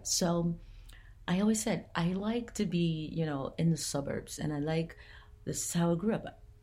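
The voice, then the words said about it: Southern US accent. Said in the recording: “I'm from down south. You probably have already heard that in the dialect. I'm from down south. I'm from the country.”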